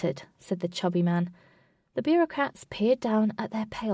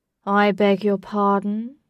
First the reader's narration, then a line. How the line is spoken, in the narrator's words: said the tallest, in a very low, deep voice